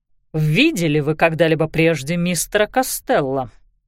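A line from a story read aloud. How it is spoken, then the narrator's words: Very sharp voice. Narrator (Russian): голос инспектора звучал очень резко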